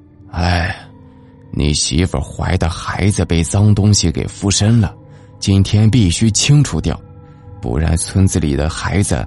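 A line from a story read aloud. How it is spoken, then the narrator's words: Sighing. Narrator (Chinese): 村长叹了一口气说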